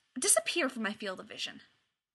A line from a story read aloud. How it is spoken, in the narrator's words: Sharpay snaps